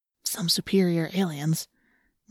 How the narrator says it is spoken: Marco whispered

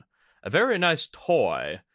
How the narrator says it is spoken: she said with a dry chuckle

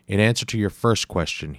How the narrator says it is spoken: he said

